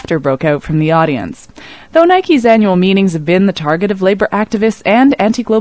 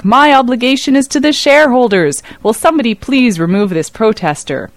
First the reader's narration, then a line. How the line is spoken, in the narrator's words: Knight barked back